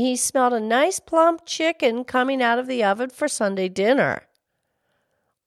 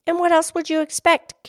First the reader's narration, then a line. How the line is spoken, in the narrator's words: Katie cried